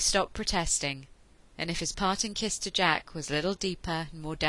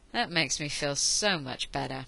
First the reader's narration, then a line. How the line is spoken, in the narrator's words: Miento said dryly